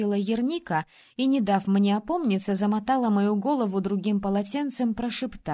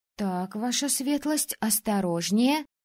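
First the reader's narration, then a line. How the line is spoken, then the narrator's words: Grumbling. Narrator (Russian): бурчала Летисса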